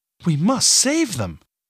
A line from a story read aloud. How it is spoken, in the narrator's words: Katrin cried